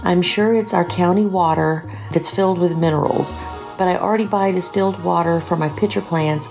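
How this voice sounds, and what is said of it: Southern US accent. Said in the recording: “Reminds me of my time living in the southern US to hear your glorious accent.”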